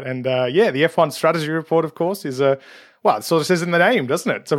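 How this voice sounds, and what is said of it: Australian accent, nasal from a cold. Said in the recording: “listeners will probably be able to guess where you're from by your accent ... from Australia, of course ... the nasaliness is a common aeroplane cold symptom”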